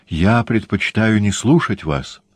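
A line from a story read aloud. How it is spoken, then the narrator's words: Plain. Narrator (Russian): сказала она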